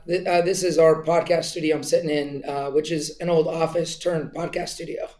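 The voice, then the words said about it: Voice affected by a cold. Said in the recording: “I apologize for my voice today. ... despite your cold”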